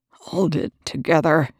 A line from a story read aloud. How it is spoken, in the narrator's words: Young said through clenched teeth